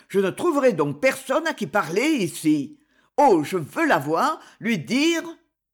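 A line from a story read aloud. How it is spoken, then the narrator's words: Inward roar. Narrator (French): rugit-il en lui-même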